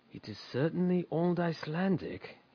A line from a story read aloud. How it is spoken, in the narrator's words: muttered between his teeth